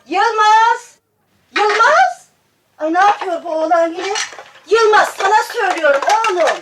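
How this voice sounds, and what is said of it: Shouting loudly. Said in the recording (Turkish): “Bağırma öyle.”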